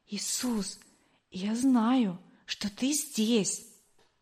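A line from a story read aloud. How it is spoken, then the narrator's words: Whisper. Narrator (Russian): а теперь я шептала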